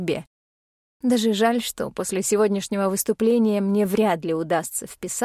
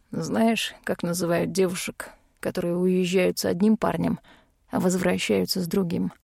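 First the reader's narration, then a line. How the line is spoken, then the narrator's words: Low, husky male voice. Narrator (Russian): У него красивый, низкий, с хрипотцой голос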